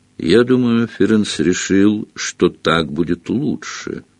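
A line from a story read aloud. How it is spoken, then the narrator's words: Gloomy. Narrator (Russian): мрачно произнес он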